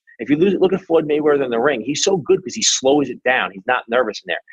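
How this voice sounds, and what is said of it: New York East Coast accent. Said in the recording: “accent, he's definitely from the East Coast ... New York”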